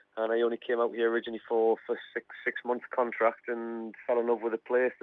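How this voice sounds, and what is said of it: Geordie accent. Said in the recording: “you've managed to keep your Geordie accent”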